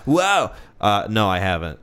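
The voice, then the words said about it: Sonic the Hedgehog cartoon voice. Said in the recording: “that was my Sonic impersonation.”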